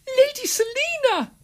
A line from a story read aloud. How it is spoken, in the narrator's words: gasped Simon